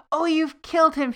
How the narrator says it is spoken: she cried

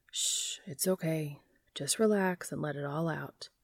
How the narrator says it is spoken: a voice murmurs beside him

